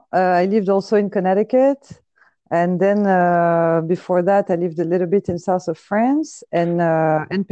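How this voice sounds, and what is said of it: French accent in English. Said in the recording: “I have an accent, so even if I say it in English, it still sounds French.”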